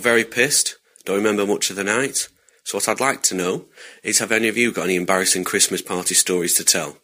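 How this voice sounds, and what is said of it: English accent. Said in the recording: “More Englishman. ... how many more of these are British or UK oriented? ... Was it the accent that got you or the Blackpool? ... Accent. ... the way he said Blackpool, the way he said it. ... God, I love you the did English.”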